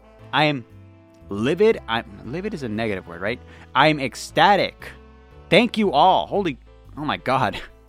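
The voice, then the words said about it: Excited, out of breath. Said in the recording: “I'm out of breath. When am I ever out of breath? That's how you know I'm excited.”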